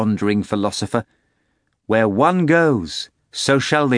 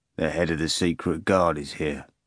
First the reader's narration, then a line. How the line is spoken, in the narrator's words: Mark informed calmly